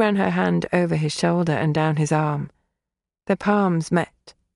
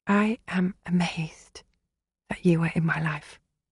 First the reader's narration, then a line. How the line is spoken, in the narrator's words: whispered